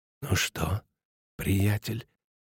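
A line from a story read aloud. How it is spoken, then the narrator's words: Muffled question. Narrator (Russian): глухо спросил Шмидт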